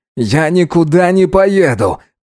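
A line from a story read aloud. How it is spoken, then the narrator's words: Shouted. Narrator (Russian): крикнул Салхаб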